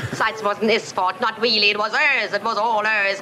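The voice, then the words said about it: Wandering attempted Cockney accent. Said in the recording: “We did a tour of not just the Isles there, but I think there's hints of Australia and all sorts going on ... It was definitely South African at points ... this was a Cockney accent”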